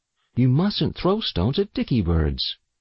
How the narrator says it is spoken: Mother admonished gently

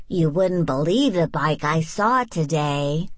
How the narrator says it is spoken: Amelia Bedelia exclaimed

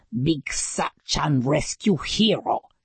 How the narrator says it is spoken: he snarled

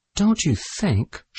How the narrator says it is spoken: said gently

